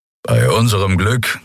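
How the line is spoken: Growled from behind. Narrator (German): knurrte Keru hinter ihnen

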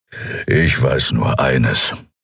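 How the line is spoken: Growl. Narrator (German): knurren

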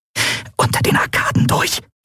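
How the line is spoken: Hissed. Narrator (German): zischte Endriel

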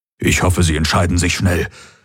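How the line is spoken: Nervous murmur. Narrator (German): murmelte Hox und schluckte

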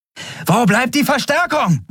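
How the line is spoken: Shouting over noise. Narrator (German): rief sie über den Lärm

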